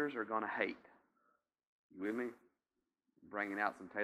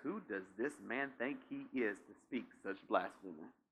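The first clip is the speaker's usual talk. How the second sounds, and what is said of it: Put-on accent reading scripture. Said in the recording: “You like my little accent?”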